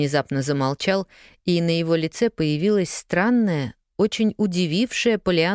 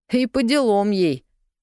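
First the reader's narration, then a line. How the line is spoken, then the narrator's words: Giggling. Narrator (Russian): хихикнул Джимми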